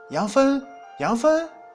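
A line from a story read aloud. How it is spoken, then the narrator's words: Happy calling. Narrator (Chinese): 牛郎高兴，叫着女人的名字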